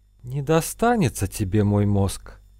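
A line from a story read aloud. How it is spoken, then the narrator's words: Strained anguished whisper. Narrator (Russian): Мучительно сглатывая, прошептала Надежда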